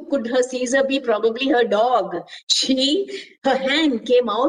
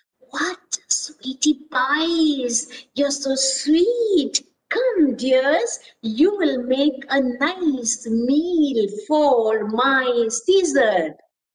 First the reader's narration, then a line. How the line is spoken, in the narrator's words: purred in a gentle voice